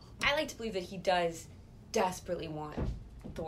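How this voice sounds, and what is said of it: Usual voice. Nothing is said of it.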